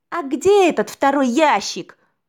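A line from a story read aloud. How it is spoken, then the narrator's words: Shouted out. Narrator (Russian): выкрикнул гость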